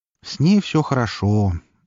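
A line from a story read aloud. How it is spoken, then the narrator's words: Calm, peaceful voice. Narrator (Russian): спокойным и даже каким-то умиротворенным голосом сообщил мне Лар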